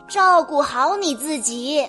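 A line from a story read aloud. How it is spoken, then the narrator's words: Loud urging. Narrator (Chinese): 奶奶大声的叮嘱道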